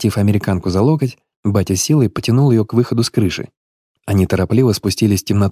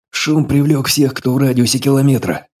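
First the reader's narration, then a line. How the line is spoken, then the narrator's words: Forced through gritted teeth. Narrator (Russian): сквозь зубы выдавил кинолог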